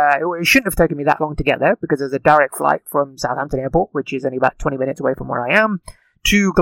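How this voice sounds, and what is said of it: Usual voice. Nothing is said of it.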